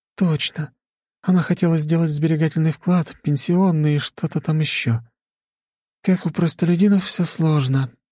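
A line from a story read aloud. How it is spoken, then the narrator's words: Sighed. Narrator (Russian): вздохнула Анна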